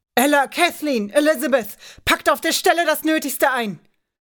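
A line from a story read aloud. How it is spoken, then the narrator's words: Angry shouting. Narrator (German): William stürmte mit hochrotem Gesicht herein und schrie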